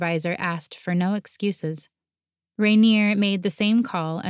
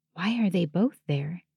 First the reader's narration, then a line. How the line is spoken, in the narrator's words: I whispered, as though they might hear me across the distance and the morning street noises